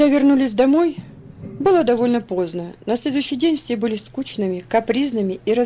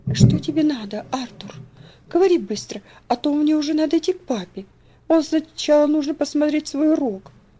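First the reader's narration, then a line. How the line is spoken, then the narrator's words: Quiet speech. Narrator (Russian): тихо проговорила она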